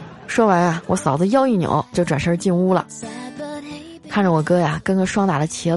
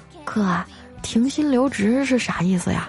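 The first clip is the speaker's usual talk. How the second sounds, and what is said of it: Quiet, hushed voice. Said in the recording (Chinese): “小声的说”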